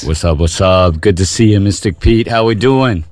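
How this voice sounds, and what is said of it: Polished radio announcer voice. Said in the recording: “That's a good radio voice.”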